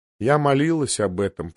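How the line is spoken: Dull flat voice. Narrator (Russian): проговорила она тусклым голосом

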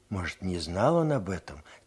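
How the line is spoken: Quiet. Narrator (Russian): тихо сказал Егор

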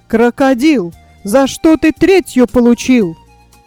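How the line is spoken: Father exclaiming. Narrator (Russian): Отец воскликнул

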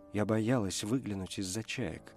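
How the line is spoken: Whisper. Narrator (Russian): прошептала она

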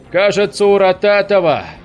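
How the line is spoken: Confident shout. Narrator (Russian): Уверенно крикнул Горбатый

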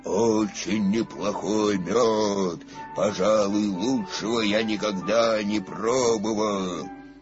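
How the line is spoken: Growled. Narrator (Russian): 587-й слонопотам прорычал

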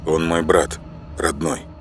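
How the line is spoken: Forced calm, restrained. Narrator (Russian): выдохнул, досчитал до 10, внешне спокойно сказал

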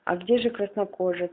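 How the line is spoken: Plain. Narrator (Russian): спросил он друг

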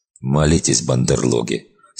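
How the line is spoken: Smirking bark. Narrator (Russian): с кривой усмешкой хмыкнул полковник и рявкнул

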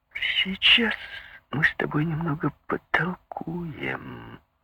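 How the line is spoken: Hissed. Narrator (Russian): прошипел Карлос

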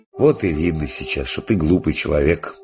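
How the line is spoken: Sighing. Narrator (Russian): вздохнул отец Христофор

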